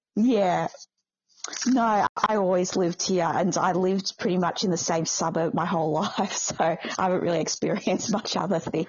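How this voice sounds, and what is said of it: Australian accent. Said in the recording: “not picking up the accent, you are from Australia ... From Melbourne.”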